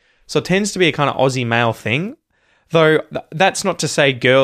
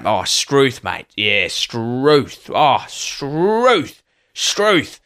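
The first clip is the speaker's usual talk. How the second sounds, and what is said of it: Broad ocker Australian accent. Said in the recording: “a very kind of ocker thing to say... you have to kind of have that full accent going where your full Aussie accent's at”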